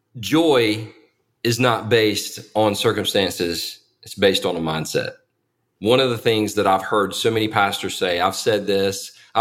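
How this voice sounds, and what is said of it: Thick Southern accent. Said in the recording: “thick Southern accent ... down home Southern all boys shucks thing”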